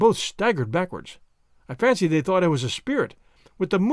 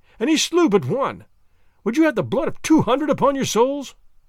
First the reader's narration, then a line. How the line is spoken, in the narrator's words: I cried